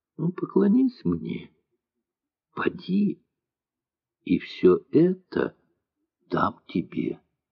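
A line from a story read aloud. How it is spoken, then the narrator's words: Tempting, gentle. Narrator (Russian): сказал дьявол Христу, искушающе, ласково так сказал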